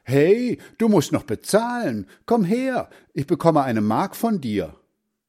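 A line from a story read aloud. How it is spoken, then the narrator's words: Boy calling after someone. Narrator (German): der Junge rief ihm nach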